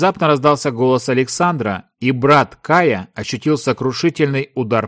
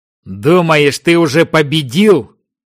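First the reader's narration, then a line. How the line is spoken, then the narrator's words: Silent mental growl. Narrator (Russian): мысленно зарычал Даймонд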